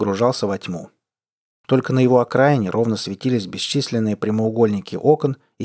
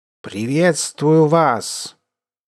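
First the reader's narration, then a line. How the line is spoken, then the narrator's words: Sudden loud boom. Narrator (Russian): Неожиданно громко грянуло со всех сторон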